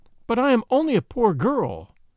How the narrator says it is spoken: cried Joan

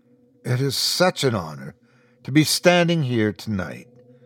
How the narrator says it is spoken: I said, my voice strong and sure

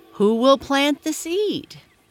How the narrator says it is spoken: she called loudly

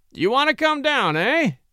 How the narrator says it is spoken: cackled Austin

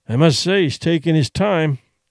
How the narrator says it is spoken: Duncan grumbled

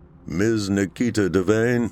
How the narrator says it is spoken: the driver called out

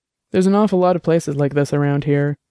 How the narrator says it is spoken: Eduardo Lino said

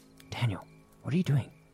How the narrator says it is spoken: Thinking it was Daniel, I whispered

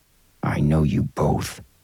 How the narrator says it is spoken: the businessman growled

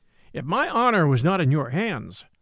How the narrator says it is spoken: I said

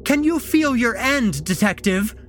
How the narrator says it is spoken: Anne screeched

